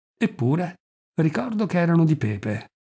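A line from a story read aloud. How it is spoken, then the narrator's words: Sighing. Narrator (Italian): riscotendosi con un sospiro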